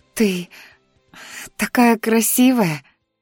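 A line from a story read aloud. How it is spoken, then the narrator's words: Rapturous breathless. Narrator (Russian): восторженно выдохнула Дионика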